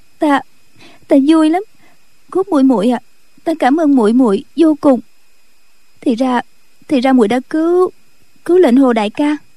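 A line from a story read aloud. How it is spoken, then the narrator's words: Sobbing woman. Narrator (Vietnamese): Cô khóc thút thít nói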